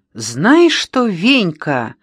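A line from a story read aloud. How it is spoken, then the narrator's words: Ringing shout. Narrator (Russian): закричала Тома зазвеневшим голосом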